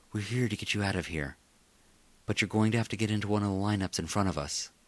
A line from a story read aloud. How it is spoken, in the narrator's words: She whispered